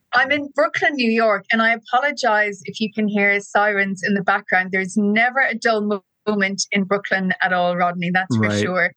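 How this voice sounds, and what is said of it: Irish accent. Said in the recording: “You can probably tell from my accent, I am not from Brooklyn originally. I'm very much from Ireland.”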